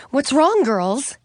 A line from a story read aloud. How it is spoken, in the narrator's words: She asked nervously